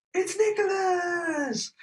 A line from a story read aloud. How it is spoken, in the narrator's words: the whole crowd would shout